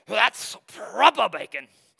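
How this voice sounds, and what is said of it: Poor put-on Scottish accent. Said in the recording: “That's not a very good Scottish accent.”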